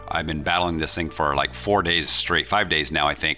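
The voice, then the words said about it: Slightly weird, sick-sounding voice. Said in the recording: “my voice sounds a little weird still, it's because I'm still a little under the weather”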